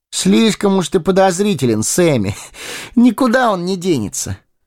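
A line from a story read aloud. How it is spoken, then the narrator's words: Laughing. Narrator (Russian): рассмеялся Фродо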